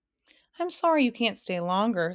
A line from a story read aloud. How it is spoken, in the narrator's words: said Alex sadly